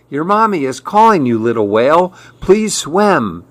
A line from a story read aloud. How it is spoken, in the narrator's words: begged Mirabelle